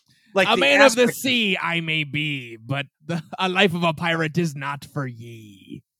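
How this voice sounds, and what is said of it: Pirate voice impression. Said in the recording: “That was a great pirate impression too.”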